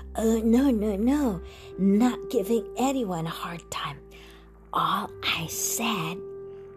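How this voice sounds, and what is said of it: Thin, raspy old man's voice. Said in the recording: “his thin, raspy voice”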